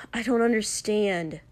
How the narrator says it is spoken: Shoto snapped finally

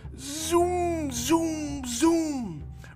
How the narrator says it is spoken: roared the trucks

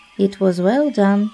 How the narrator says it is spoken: said Akela

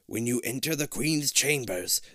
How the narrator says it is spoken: the professor croaks

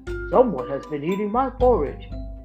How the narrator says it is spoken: Papa Bear said, in a great big voice

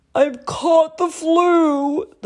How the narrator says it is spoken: the lion roared

